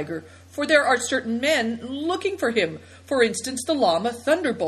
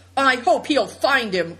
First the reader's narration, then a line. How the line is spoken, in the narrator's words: cried Seven Stars, her eyes blazing angrily